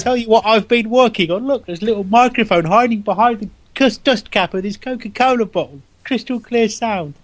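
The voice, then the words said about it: Good put-on London accent. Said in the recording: “That's a very good London accent ... I do love you, Mary Poppins.”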